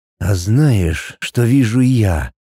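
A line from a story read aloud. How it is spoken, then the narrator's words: Hoarse whisper in ear. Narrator (Russian): Хрипло прошептал мне мужчина в самое ухо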